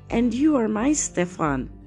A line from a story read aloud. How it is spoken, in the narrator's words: cried she